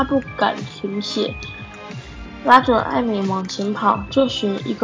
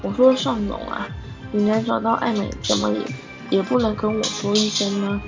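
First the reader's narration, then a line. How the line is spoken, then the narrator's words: High-pitched voice. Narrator (Chinese): 他的声音非常低，比百货公司的店员还要高八度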